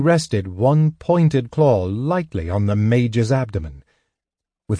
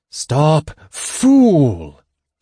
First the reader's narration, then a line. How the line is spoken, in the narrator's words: the dragon hissed